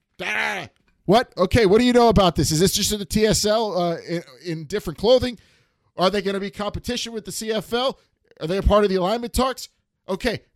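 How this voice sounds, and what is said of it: Imitates another person's voice. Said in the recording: “my impression of our good friend Dave Naylor of TSN”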